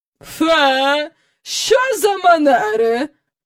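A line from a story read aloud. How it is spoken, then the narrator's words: Exclaiming. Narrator (Ukrainian): вигукнула міс Ендрю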